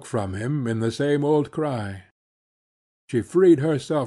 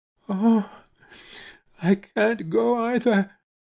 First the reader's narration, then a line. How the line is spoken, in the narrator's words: she wailed